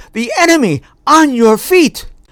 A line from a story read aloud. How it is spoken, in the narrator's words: The sentries cried out